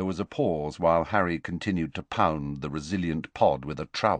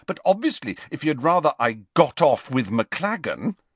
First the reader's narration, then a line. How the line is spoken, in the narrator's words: said Hermione angrily